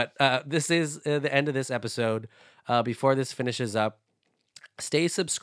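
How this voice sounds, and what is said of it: Usual voice. Nothing is said of it.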